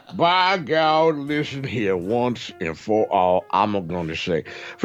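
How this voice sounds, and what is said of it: Put-on old Southern drawl. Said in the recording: “I do this voice. It's an old Southern drawl.”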